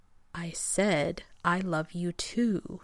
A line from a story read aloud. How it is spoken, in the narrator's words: he repeated slowly as if talking to a child, or to a moronic genius